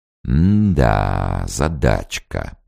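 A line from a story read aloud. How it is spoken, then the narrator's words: Drawling. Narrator (Russian): протянул обер-лейтенант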